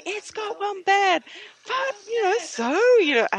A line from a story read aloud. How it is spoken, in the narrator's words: yelled at each other